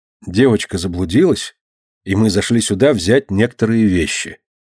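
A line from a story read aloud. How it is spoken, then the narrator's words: Calm confirmation. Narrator (Russian): спокойно подтвердил Костя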